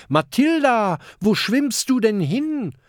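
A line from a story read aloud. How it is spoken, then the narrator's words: Calling out. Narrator (German): ruft Kokosnuss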